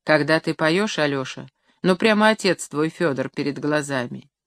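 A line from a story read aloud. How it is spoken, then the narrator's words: Quiet, tearful. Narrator (Russian): Матрена Дементьевна, вытирая украдкой слезы, негромко сказала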